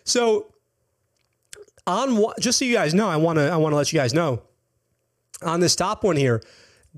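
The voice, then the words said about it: Strained, fading voice. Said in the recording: “I'm like losing my voice”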